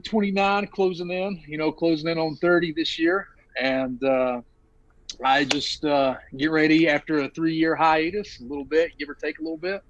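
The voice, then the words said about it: Eastern Kentucky mountain accent. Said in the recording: “this this accent,⟧ I am from Eastern Kentucky, deep in the mountains, Pikeville”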